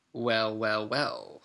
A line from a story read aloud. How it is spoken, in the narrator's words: sneered Snape